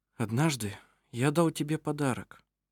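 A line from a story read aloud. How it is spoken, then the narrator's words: Quiet. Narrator (Russian): тихо произнес он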